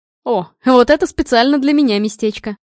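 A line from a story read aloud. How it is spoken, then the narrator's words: Loud laughter. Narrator (Russian): расхохотался Женя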